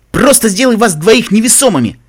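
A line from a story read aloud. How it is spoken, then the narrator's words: Shouted reply. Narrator (Russian): Заорала Реджи в ответ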